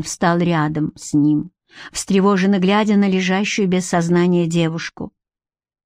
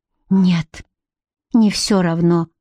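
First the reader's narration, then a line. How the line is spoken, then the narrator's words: Drained, forced-out words. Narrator (Russian): выдавил Гарик, внезапно обмякнув, словно ярость и гнев покинули его, оставив лишь опустошение и тоску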